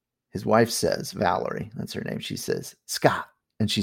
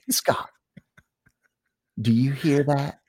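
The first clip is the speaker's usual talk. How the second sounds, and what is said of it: Put-on Southern American accent. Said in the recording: “she's Southern. So I'm going to try to do my Southern accent.”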